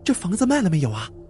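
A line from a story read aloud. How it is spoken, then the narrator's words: Overjoyed, hurried question. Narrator (Chinese): 单小姐见他回来了，高兴的不得了，急忙问道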